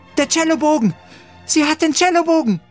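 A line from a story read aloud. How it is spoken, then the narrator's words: Excited call. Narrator (German): rief Sophia aufgeregt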